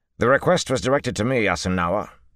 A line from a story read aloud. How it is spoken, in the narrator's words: Valda snapped